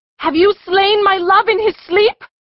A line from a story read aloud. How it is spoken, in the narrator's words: she cried in a frenzy